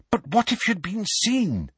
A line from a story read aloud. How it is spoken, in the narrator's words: said Hermione anxiously